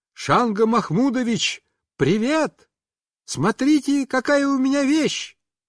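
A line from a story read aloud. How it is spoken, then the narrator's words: Loud shout. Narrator (Russian): я громко закричал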